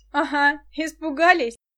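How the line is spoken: Laughing. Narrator (Russian): засмеялся Денис

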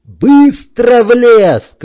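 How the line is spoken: Shouted. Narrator (Russian): крикнул я

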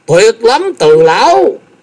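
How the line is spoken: Excited exclamation. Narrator (Vietnamese): Thái Anh tinh thần vô cùng phấn chấn, kêu lên

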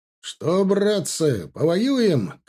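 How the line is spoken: Shout. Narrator (Russian): крикнул Егоров

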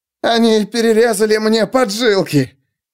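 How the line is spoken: Tearful childish whimpering. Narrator (Russian): В голосе Стура слышалось слезливое хныканье, словно у ребенка, жалующегося на то, что ему достался самый маленький кусок пирога

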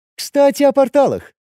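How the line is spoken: Cheerful. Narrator (Russian): весело сказала Кира

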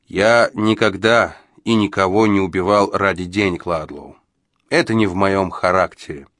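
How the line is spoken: Calm reply. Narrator (Russian): спокойно ответил Джо

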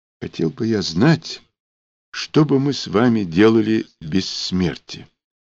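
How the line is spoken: Quiet objection. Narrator (Russian): тихо возразил Лапин

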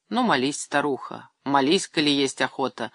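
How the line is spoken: Sighing. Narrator (Russian): вздохнул Андрей Иванович

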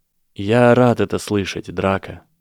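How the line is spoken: Said softly. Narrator (Russian): мягко сказал он

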